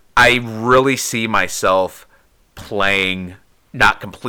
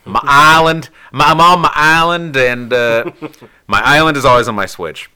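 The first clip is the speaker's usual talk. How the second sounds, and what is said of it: Slight country twang. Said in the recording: “I'm having a little country twang there”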